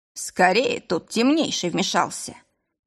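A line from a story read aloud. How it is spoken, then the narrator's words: Displeased grumble. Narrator (Russian): Недовольно буркнул Вель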